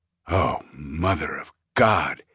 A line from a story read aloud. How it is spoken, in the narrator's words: He groaned